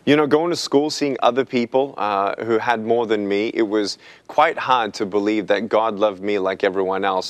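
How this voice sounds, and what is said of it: Australian accent. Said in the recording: “that accent you have ... You were born and raised in Australia.”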